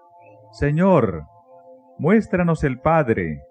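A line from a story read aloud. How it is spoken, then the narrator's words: Exclaiming. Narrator (Spanish): exclamó Felipe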